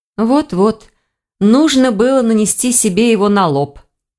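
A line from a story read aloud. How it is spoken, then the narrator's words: Inner groan. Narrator (Russian): мысленно простонал Ивар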